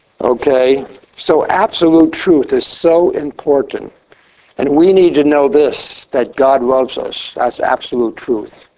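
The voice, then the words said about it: Voice not in its usual condition. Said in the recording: “Apologize for my voice tonight”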